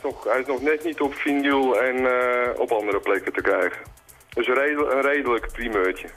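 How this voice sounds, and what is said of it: Amsterdam Dutch accent. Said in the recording (Dutch): “kom uit Amsterdam ... Accent, hè? Ik heb geprobeerd om er vanaf te komen, maar het lukt nog steeds niet.”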